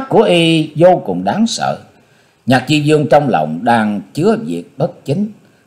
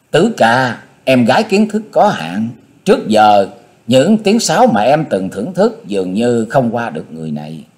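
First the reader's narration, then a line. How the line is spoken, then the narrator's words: Giggling girl. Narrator (Vietnamese): Thiếu nữ cười khúc khích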